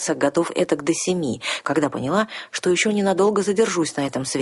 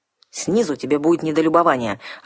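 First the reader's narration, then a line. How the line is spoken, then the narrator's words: Snapping back. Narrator (Russian): огрызнулся Ролар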